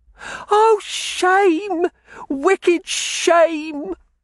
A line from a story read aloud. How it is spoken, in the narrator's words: Sissy cried from the corner